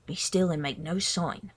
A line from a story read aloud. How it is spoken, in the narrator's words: Prudence whispered